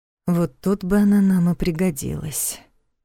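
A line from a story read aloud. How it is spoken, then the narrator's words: Quiet husband. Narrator (Russian): так же тихо отозвался ее муж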